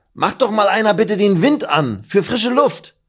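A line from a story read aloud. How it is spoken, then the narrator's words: Calling out. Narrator (German): ruft Meffo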